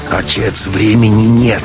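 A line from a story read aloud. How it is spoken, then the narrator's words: Near growl. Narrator (Russian): Матвей почти рычал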